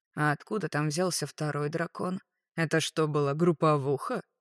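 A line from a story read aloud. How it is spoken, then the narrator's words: Snorting scoff. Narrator (Russian): фыркнул крылатый король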